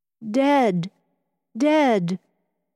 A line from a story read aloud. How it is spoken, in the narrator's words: he cried